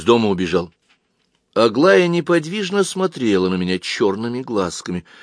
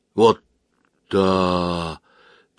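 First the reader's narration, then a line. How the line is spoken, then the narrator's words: Quiet drawl. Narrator (Russian): протянула она тихо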